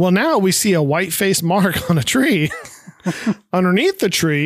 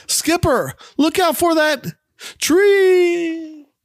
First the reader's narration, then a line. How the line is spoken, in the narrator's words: suddenly stops mid-sentence and yells out